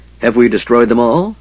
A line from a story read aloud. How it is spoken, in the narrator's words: the big man asked cheerfully